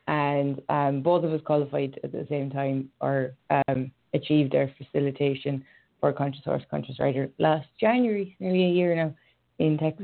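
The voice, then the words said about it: Irish accent. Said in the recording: “I'm Irish, if you didn't know by the accent.”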